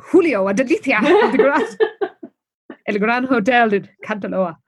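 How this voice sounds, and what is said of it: Put-on Spanish accent. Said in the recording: “Oh, that's a Spanish accent. Spanish, yes.”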